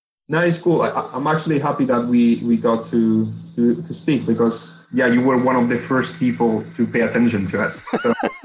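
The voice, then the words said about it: Spanish accent. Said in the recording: “Well, in Spain. ... Yeah, you can probably tell by my accent.”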